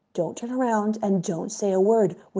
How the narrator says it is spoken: whispered the Rebbe

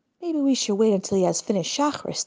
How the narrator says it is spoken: the leader of the group suggested softly

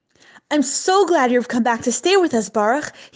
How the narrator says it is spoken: exclaimed

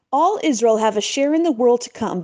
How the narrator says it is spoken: began the Magid loudly

